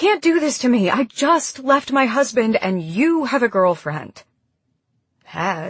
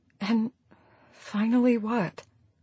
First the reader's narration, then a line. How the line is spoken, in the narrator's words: She whispered